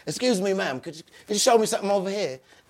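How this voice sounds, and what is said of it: Poor put-on London accent. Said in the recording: “I'm doing voices. I'm changing my accent ... I'm in town from London ... My accent's horrible.”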